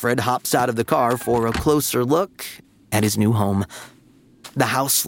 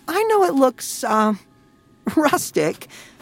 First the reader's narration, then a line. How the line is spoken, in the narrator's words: laughs Alfred's mom